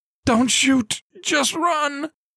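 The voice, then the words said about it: Hoarse yelling. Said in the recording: “the person yelled, voice hoarse from overexertion”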